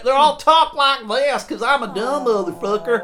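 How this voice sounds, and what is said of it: Mocking dumb southern accent. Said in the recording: “They all had fucking dumb southern accent.”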